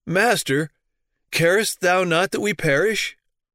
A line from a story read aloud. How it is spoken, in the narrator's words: In amazement and despair, they exclaim